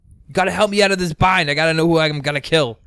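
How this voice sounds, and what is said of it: Imitates another person's voice, weak Boston accent. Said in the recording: “am I doing a good impression of him or ... a little bit, you need a little bit more Boston.”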